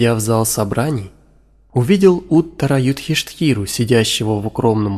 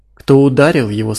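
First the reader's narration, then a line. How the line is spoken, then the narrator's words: Plain. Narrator (Russian): спросил царевич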